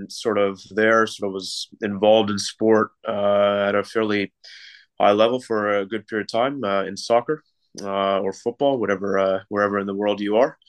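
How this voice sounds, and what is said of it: Canadian accent. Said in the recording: “maybe notice a bit of the accent. Originally from Canada, so born and raised in Canada from Toronto.”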